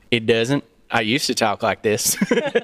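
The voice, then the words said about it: Southern US accent. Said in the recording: “in and around Nashville and Knoxville, Tennessee ... Atlanta, Georgia ... Your accent doesn't give away any of that ... it really kind of got ironed out ... everyone talks like this, and and we just slip back into it”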